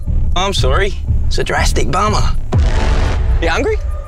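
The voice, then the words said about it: Convincing Australian accent. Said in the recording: “have a listen to how good his Aussie accent is ... it might even be better than mine ... That's amazing ... one of the great Aussie accents”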